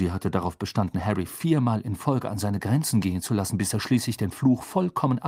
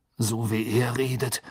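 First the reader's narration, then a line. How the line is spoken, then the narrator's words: Muttering. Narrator (German): murmelte Harry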